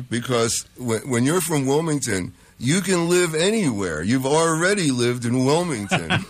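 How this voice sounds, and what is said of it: Distinctive Delaware regional accent. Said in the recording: “You got that distinctive New York accent... Which I make damn sure I still have... Not a New York accent. That's a Delaware.”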